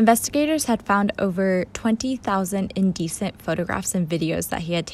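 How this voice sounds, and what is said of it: Usual voice. Nothing is said of it.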